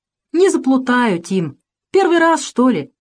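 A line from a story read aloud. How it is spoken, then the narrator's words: Cheerful reply. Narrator (Russian): весело откликнулся Максимка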